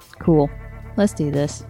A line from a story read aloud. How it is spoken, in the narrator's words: said